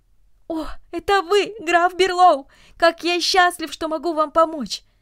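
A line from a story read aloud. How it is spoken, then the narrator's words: Excited exclamation. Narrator (Russian): Ричард, поджидавший его здесь последние 10 ночей, вбежал в комнату и воскликнул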